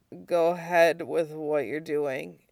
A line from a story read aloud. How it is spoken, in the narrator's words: Zuko mumbled